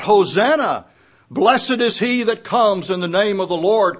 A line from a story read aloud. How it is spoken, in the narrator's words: they cried out